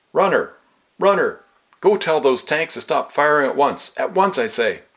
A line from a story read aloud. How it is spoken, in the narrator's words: shouting at the top of his voice